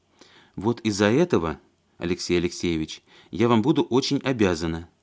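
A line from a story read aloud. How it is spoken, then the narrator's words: Quiet widow. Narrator (Russian): тихо сказала вдова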